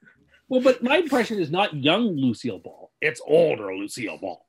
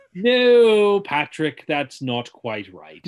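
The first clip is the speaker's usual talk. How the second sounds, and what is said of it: Half-British, half-American imitated voice. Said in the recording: “it's a very good impression of Kelsey Grammer... Now you're doing a British accent... it's not British and it's not American. It's an admixture of the two of them.”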